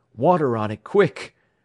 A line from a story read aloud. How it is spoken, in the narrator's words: gasped Jack